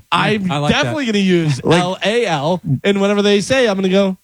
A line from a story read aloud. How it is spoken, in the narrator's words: I laughed a little